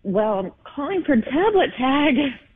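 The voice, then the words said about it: Nervous, slightly quivering voice. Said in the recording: “You sound a little nervous. ... I noticed a little quiver in your voice.”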